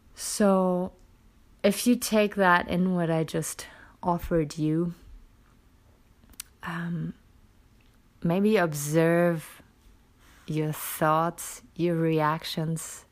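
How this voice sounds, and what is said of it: Tired, lower-pitched voice. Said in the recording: “I sound a little exhausted today ... my voice is a little lower than usual”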